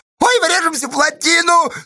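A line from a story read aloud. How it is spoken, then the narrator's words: Frightened whimper. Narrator (Russian): скулил рядом напуганный Федька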